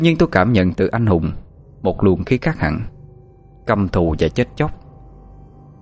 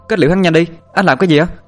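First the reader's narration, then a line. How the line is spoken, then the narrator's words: Loud shout. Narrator (Vietnamese): Tú Linh hét lớn lên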